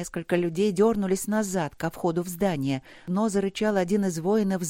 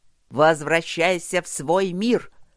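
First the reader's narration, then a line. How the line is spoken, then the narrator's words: Growling, mocking shout. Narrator (Russian): рычащий и насмешливо крикнул ему один из воинов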